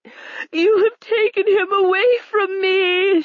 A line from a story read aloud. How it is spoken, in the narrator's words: she cried, because she was weak and helpless without a man